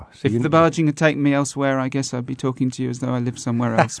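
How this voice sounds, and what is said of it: English accent. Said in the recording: “you still got your good English accent”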